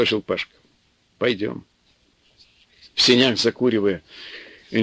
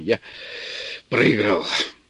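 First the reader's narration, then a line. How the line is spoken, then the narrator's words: Slightly hoarse. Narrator (Russian): сказал чуть охрипшим голосом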